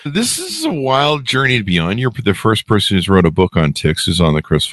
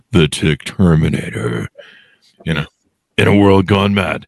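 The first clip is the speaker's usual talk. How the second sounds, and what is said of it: Powerful movie-trailer voice. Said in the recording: “some sort of powerful movie voice”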